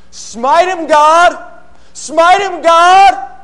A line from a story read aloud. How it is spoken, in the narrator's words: the sinners throughout all history cried out